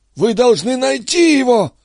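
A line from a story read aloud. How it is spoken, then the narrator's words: Hoarse wheeze. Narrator (Russian): просипела она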